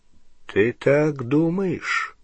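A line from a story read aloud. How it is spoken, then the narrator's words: Slow speech. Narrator (Russian): медленно произнес Дамблдор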